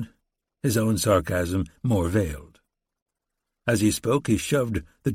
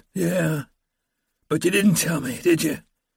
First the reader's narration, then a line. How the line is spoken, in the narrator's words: said bitterly, his voice weakening as he spoke